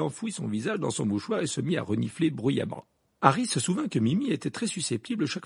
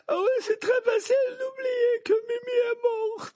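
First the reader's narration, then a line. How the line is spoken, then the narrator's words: Sobbing. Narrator (French): dit Mimi Géniard dans un sanglot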